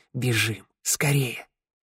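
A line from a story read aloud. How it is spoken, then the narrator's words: Hissed. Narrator (Russian): Тео прошипел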